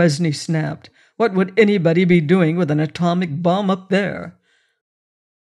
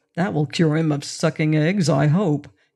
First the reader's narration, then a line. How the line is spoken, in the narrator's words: he muttered